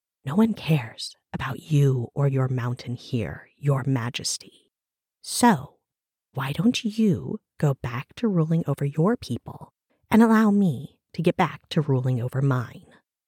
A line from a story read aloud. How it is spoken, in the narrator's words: Malice laced the edges of the innkeeper's mouth as she leaned in to whisper